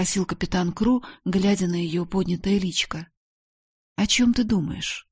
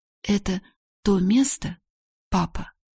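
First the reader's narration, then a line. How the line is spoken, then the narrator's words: Frightened whisper. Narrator (Russian): прошептала Сара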